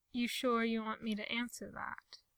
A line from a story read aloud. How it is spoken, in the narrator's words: he asks